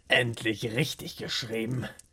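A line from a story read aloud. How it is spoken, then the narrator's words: Satisfied murmur. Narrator (German): murmelte zufrieden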